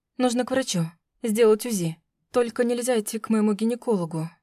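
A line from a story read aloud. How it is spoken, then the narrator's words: Anxious muttering. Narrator (Russian): бормотала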